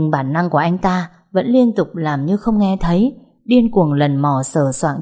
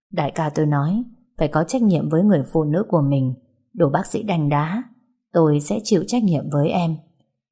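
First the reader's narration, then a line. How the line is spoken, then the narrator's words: Muttered. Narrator (Vietnamese): cô nghe Minh Trạch lẩm bẩm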